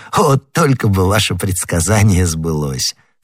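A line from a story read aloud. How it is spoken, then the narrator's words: Laughing. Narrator (Russian): смеясь, сказал Д'Артаньян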